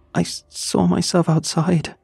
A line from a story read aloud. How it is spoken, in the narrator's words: she gasped